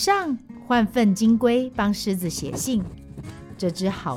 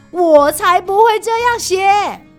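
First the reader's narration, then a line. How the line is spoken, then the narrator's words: Loud roar. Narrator (Chinese): 狮子大叫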